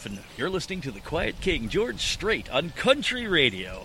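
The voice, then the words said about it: Radio DJ announcer voice. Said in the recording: “announcer voice ... that's just one of the DJ voices. I've got the whole repertoire”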